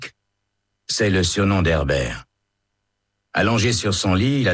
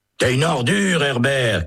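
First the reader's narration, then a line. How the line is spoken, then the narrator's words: Shouted. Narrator (French): crie Holt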